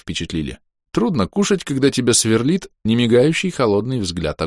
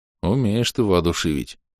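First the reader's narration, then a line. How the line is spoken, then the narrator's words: Sigh. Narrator (Russian): вздохнул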